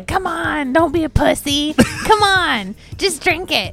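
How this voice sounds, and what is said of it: Imitates another person's voice. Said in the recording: “your Josh impersonation sound like Baby Firefly, roughly”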